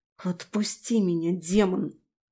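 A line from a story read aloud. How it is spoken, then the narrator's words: Hissed through teeth. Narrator (Russian): Сквозь зубы прошипела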